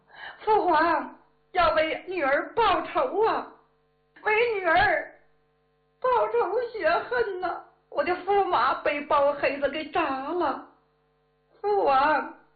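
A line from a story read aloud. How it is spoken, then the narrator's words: Princess, weeping. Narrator (Chinese): 公主哭道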